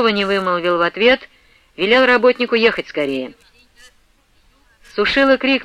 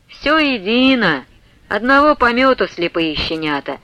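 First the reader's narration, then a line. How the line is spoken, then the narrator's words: Sarcastic priest. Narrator (Russian): язвительно сказал поп Сушила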